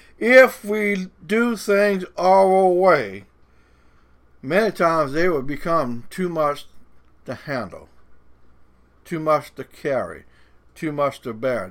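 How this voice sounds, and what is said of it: Cajun accent. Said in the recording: “my Cajun accent is a little bit funny”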